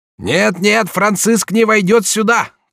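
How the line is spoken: Heated shout. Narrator (Russian): кричал с некоторой запальчивостью дикий Карл Максимилиан

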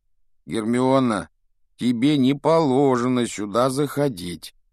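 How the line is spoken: Grumbled. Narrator (Russian): проворчал Рон

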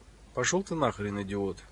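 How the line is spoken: Exhaled. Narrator (Russian): Юрка выдохнул

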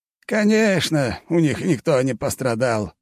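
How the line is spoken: Old man's grumble. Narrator (Russian): заворчал тут же дед

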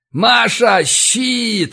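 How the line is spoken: Yell. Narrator (Russian): заорал я

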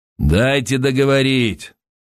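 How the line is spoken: Loud curt remark. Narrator (Russian): громко бросил Косов

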